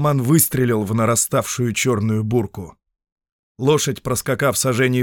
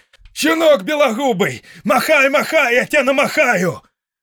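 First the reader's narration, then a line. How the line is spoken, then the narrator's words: Shouted. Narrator (Russian): крикнул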